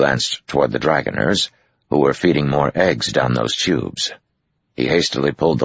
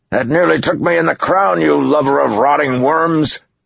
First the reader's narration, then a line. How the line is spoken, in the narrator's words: what Uno had shouted